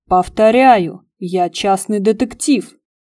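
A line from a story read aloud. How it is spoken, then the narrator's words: Barked. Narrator (Russian): Рявкнул Игорь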